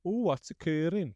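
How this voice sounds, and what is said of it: Attempted Welsh accent. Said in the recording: “I'm not even going to try and do a Welsh accent... I could do a bit of a Gavin and Stacey... That's a British accent... It wasn't too bad, I suppose... That was all right, that”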